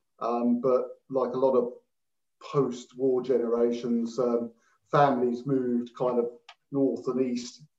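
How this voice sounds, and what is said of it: East London accent. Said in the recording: “I'm hearing a bit of an East London accent”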